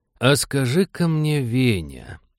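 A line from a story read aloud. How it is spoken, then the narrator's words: Ingratiating, insinuating. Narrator (Russian): вкрадчиво начал он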